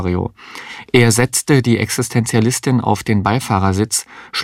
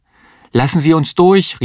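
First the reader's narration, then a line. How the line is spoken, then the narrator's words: Called out. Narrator (German): rief Mario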